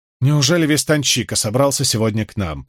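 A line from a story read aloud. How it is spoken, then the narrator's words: Grumbling. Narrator (Russian): проворчала Найниф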